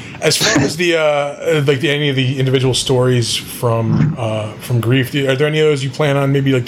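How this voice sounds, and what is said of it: Usual voice. Nothing is said of it.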